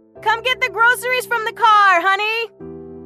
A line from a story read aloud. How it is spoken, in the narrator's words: She shouted up the stairs